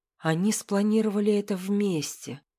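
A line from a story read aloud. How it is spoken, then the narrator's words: Strange-sounding whisper. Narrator (Russian): прошептала я, и собственный голос показался мне чужим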